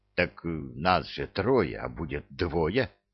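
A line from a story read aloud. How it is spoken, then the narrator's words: Whispered objection. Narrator (Russian): шепотом возразил Кевин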